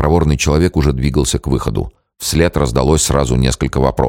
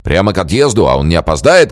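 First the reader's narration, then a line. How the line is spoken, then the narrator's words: Shouted. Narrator (Russian): крикнул Железнов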